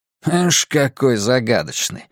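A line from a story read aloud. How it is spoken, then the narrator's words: Skeptical snort. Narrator (Russian): хмыкнул Дерек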